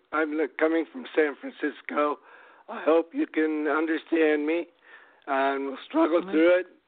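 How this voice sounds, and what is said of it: Congested voice from a cold. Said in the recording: “I've got a cold.”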